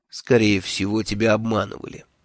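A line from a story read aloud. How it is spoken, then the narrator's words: Calm objection. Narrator (Russian): спокойно возразил хранитель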